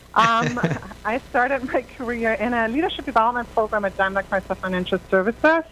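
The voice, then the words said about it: Slight German accent. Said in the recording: “I'm from Germany originally, as you might deduce from my slight accent”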